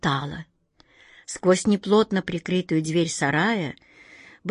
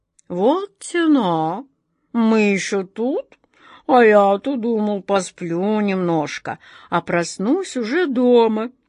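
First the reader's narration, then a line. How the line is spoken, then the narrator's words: Disappointed drawl. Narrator (Russian): разочарованно протянул он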